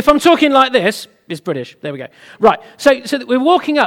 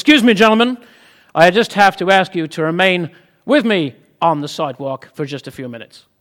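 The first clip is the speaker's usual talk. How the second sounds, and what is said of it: Attempted American accent. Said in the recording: “this is an American accent ... There will be a bit more of an American accent involved ... if I'm talking an accent, it's an attempt at American”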